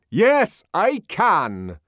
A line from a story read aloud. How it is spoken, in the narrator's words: Bernard answered in a very loud voice, somewhat taken aback, but still majestically